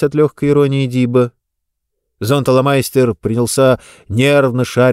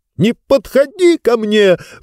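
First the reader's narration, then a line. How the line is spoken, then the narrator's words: Sudden shriek. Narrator (Russian): вдруг ни с того ни с сего взвизгнул он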